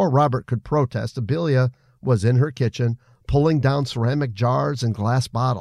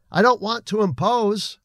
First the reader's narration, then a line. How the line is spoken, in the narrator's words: Robert called out